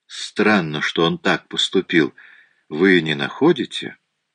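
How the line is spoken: Calm with hidden edge. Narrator (Russian): Голос Пуаро звучал очень спокойно, но в нем было нечто такое

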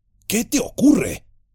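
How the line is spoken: Offended growl. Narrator (Spanish): gruñó Sam, tomando a mal la actitud de Gollum

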